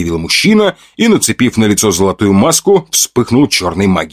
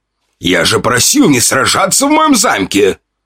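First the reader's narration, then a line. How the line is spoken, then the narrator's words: Lord's growl. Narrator (Russian): рыкнул владыка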